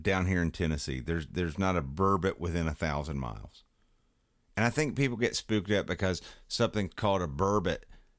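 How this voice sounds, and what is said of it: Southern US hillbilly accent. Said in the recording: “I'm a hillbilly, if you can't tell from my accent.”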